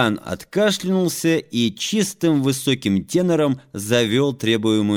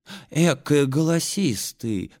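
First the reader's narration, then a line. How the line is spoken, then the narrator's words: Women whispering. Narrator (Russian): шептали бабы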